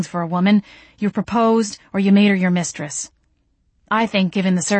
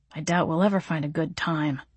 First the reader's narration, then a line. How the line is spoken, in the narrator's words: he muttered